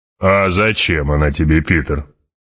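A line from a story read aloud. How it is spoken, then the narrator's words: Deep bass voice. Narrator (Russian): пробасил барон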